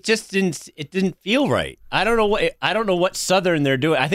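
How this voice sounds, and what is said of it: Usual voice. Nothing is said of it.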